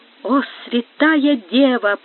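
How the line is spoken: Whisper. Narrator (Russian): прошептал он

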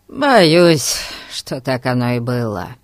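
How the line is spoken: Sighing. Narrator (Russian): вздохнул Дженкс

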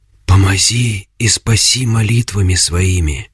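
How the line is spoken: Whisper. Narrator (Russian): прошептала Агафья

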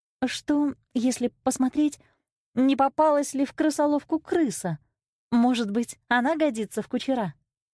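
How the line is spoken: Timid question. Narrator (Russian): Золушка робко спросила

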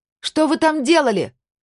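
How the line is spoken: Shouting over siren. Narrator (Russian): крикнула Сабина сквозь вой сирены

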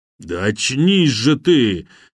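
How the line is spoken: Muffled growl near ear. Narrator (Russian): глухо прорычало над ухом

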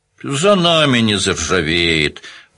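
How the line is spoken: Grumbling. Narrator (Russian): проворчал Данил

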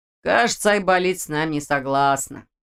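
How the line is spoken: Smirking snort. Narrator (Russian): хмыкнул Ваня

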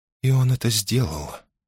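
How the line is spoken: Whisper. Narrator (Russian): прошептала Мона Сенья

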